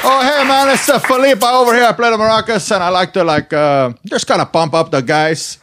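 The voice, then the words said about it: Character voice with foreign accent. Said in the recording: “What country do you think you're from, based on that accent? ... Now I want to do the Philippe voice.”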